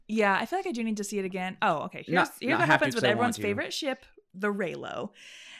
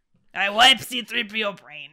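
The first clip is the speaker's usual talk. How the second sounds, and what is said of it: Imitates a character's voice. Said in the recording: “a good impression. Yeah. Real good.”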